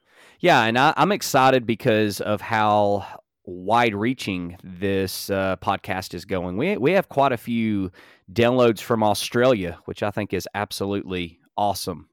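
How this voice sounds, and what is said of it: Strong Alabama accent. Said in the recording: “I have a Alabama accent. I have the worst kind that you could possibly imagine.”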